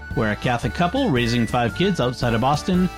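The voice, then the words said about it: Deliberately lowered deep radio voice. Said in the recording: “radio voice ... I intentionally lower my voice to start”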